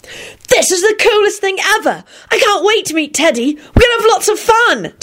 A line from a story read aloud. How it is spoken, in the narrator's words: Timothy squealed